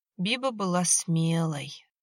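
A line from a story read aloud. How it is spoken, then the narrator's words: Mournful voice. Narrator (Russian): траурным голосом сказала Валентина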